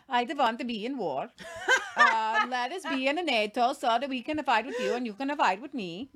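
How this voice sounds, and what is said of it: Poor put-on Swedish accent. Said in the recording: “that wasn't a good Swedish accent.”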